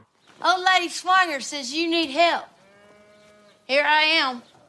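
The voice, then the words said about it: Big exaggerated Southern accent. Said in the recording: “Southern accents ... who's actually from the South. And her accent is so big that you'd be forgiven for wondering if she was the faker ... It sounds like she's the one putting on the accent ... that bigness”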